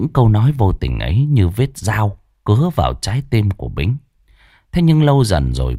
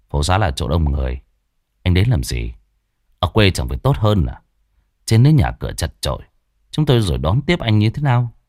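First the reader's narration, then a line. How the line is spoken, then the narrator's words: Cold. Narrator (Vietnamese): Thằng Quân chỉ lạnh lùng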